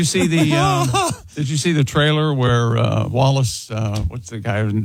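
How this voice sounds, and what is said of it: Usual voice. Nothing is said of it.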